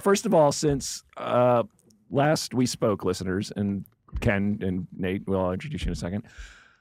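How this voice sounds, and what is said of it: Slightly strained, fading voice. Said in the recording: “Do I sound like I'm losing my voice, Aaron? ... A little bit. ... as soon as you started on the microphone, I went, oh, no, you are losing your voice.”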